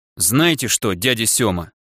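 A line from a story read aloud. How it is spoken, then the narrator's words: Icy voice. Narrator (Russian): практически ледяным голосом произнес я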